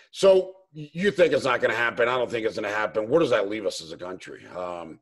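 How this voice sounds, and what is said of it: Spanish accent. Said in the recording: “my Spanish accent ... are you Argentinian? Are you Colombian? ... are you Cuban?”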